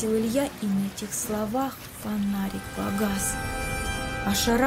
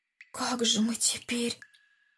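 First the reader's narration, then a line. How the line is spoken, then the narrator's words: Whispered. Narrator (Russian): Шепотом сказал Андрей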